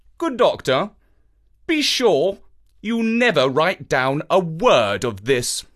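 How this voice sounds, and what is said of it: Steely, hard voice. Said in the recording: “in a most steely voice,”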